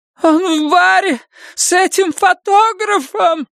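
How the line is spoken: Shrill cry. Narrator (Russian): пронзительно выкрикнула она

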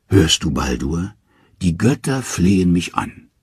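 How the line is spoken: Purring with contentment. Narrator (German): sagt Hel, und nun schnurrt sie wie eine Katze vor Behagen

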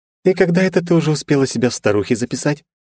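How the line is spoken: Cheerful reproach. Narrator (Russian): весело одернула Вета драконику

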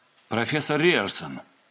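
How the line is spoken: Not quite respectful greeting. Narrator (Russian): тон Дайна, которым он приветствовал появившегося из кабинета Риерсона, сложно было назвать строго уважительным

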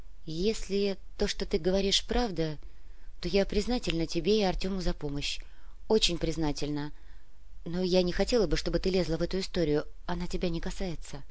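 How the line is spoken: Quiet. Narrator (Russian): тихо сказала Вера

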